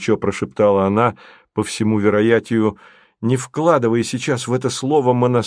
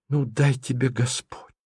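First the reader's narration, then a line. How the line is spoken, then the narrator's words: Whisper. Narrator (Russian): прошептала она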